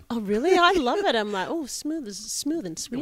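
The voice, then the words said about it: Australian accent. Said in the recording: “You like the accent? ... It's beautiful. ... some action from that accent. ... I even Australian it up even more over here”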